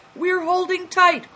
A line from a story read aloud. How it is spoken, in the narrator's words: cried Christian and Big Tiger